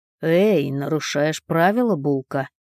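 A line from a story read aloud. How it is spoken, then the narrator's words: Snorted. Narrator (Russian): фыркнул Ник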